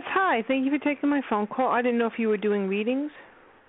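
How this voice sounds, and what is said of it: New York / East Coast accent. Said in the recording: “You are you in New York or the East Coast? ... that beautiful uh, accent of yours.”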